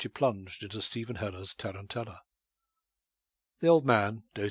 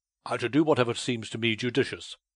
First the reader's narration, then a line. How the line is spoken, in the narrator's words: he answered curtly